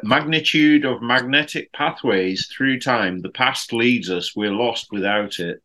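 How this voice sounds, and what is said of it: Poor attempt at Wolverhampton accent. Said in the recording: “I was actually trying to do a kind of a Wolverhampton accent ... Geez, that was awful. That was very. That was the worst.”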